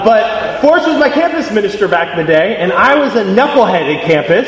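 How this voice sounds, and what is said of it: American accent. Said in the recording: “I am American by accent, as you can probably tell”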